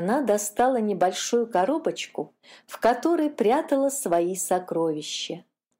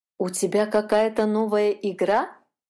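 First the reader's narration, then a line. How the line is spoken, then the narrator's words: Plain. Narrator (Russian): спросила ее мама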